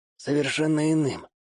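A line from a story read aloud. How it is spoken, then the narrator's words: Quiet young man. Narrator (Russian): тихо повторил за мной парень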